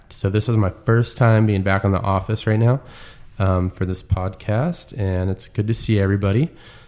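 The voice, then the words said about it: Sick, congested voice. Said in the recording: “Sick. I don't know if you can hear it in my voice ... I've kind of been fighting this cold off”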